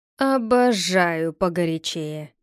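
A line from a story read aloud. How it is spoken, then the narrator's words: Growled with eager gusto. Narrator (Russian): прорычал Гектор, пылая задором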